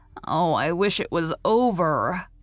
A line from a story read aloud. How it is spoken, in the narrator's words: groaned Walter